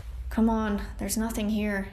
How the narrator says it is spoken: Killian muttered

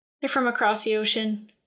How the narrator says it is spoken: Oin told them sadly

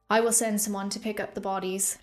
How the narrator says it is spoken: she said, walking wearily away

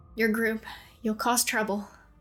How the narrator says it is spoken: the man muttered

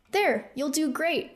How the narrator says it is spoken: Rune said happily

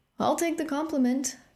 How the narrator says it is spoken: Philip said happily

